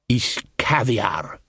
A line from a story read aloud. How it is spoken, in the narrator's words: murmured Casanunda